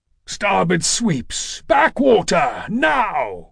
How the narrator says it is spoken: Kratos roared

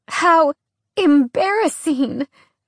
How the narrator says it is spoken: Alex whimpered, actually managing to fill her eyes with tears

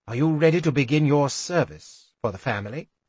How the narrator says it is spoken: He said it so calmly

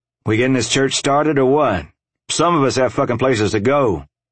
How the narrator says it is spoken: Kai shouted to the men in the room

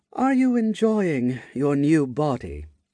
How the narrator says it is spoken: she asked in a flat tone

